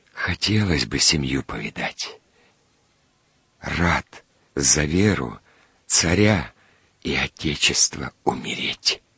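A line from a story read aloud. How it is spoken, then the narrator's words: Wounded man's faint whisper. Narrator (Russian): Раненый вздохнул едва слышно и прошептал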